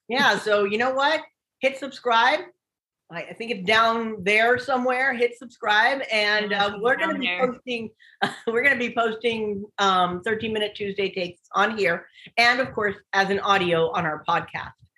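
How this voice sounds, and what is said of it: Voice sounds off from a cold. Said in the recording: “I've been battling with this cold ... I still have lingering parts of it ... my voice sounds kind of funny ... You have a radio voice.”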